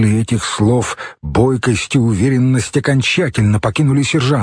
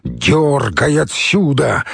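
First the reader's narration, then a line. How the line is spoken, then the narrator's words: Barked. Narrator (Russian): рявкнул Мамедов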